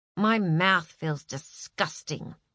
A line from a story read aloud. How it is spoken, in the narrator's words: muttered Joel